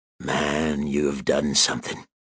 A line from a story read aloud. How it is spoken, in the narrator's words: he purred